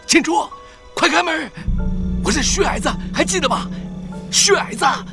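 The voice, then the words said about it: Low hoarse voice, heavy urgent breathing. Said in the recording (Chinese): “门外传来急促而沉重的呼吸声，然后一个低哑的声音说”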